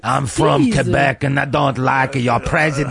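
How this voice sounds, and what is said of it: French-Canadian accent. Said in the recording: “Don't you like my accent? ... you know it's a good accent when you have to point out what the accent is ... French-Canadian, I believe, is what you would be”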